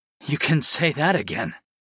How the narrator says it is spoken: I panted

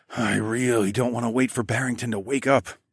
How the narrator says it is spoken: I muttered

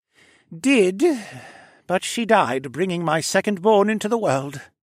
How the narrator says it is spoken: sighed

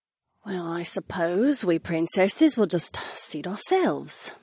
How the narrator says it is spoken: Sienna muttered

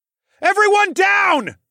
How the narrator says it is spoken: I bellowed

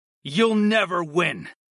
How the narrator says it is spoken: I snarled

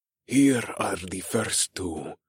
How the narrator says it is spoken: Jonas hissed

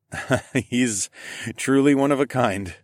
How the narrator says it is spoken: chuckled

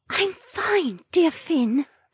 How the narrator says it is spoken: the mermaid whispered

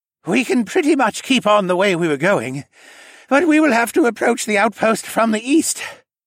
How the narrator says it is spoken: said between breaths, about an hour or two after we outran the avalanche

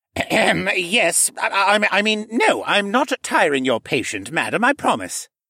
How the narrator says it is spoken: spluttered

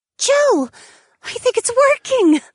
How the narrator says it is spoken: Ariana gasped

